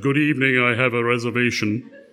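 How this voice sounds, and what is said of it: Exaggeratedly deep voice. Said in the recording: “in my deepest voice”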